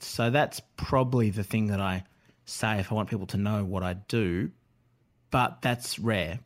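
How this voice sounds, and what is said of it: Australian accent. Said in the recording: “particularly with my accent, I sometimes say rider, uh, and it sounds as though I'm sort of the man from Snowy River”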